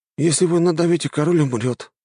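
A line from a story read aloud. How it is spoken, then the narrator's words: Sigh. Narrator (Russian): вздохнул Фипче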